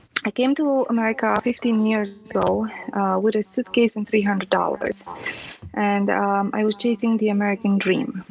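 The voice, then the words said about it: Noticeable non-native accent. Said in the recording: “I have an accent, obviously.”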